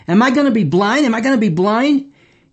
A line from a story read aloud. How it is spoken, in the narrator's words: desperately asked him